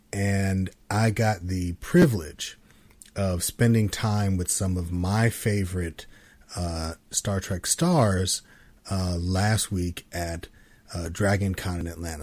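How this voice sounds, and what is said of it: Slightly dry, scratchy voice. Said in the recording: “my voice sounds a little off ... So I got a little bit of the con crud going on. So my throat's a little dry, a little scratchy. I got a little bit of a cold”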